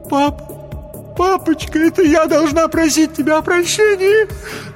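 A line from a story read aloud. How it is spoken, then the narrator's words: Sobbing. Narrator (Russian): зарыдала Хелен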